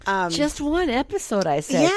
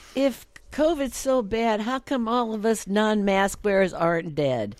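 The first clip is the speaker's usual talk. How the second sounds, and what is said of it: Put-on Southern accent. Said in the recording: “I don't know why I said it with a Southern accent.”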